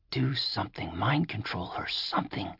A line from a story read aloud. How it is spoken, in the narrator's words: whispered Jack